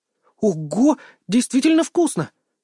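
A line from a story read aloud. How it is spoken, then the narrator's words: Enthusiastic exclamation. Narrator (Russian): с энтузиазмом воскликнула она, прожевав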